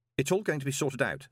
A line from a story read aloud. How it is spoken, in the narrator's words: said Moist quickly